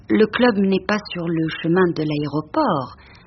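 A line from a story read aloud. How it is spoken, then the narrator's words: Plain. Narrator (French): dit-elle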